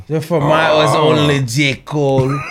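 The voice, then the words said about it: Angry put-on African accent. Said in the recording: “His angry African accent is top tier.”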